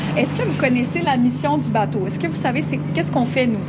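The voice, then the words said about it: Canadian French accent. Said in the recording (French): “je suis canadienne. C'est pour ça qu'il y a un petit accent différent”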